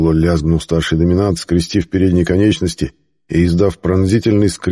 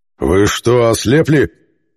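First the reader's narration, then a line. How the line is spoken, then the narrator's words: Growling. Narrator (Russian): зарычал старший доминант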